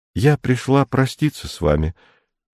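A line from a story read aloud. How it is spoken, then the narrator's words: Even voice. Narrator (Russian): начала она ровным голосом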